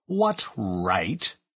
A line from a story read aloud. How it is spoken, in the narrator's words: he added in an aggrieved tone